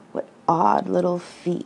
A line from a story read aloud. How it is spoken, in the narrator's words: laughed the tiger